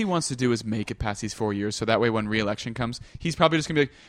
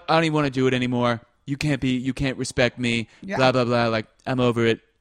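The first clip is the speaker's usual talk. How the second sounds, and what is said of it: Imitates another person's voice. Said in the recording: “That's a pretty good little imitation”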